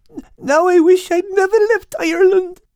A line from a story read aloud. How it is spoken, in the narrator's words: cried Al, his grief speaking